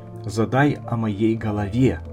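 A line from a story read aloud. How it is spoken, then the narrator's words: Whisper in ear. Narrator (Russian): шепнул ей на ухо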